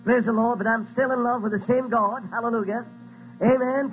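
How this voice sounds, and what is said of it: Noticeably different accent. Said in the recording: “I might have a little bit different accent”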